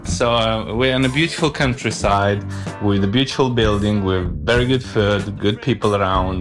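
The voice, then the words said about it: Non-native English, Moldovan accent. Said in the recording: “I can tell from your accent, I mean, your English is perfect, but the accent is not English ... I'm from Moldova.”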